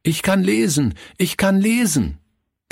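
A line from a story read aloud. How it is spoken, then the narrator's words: Calling out to everyone. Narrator (German): rief er jedem zu, der in Hörweite kam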